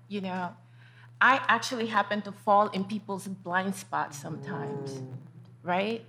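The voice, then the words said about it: Hispanic immigrant accent. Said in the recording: “As a Black, Hispanic woman, immigrant with an accent”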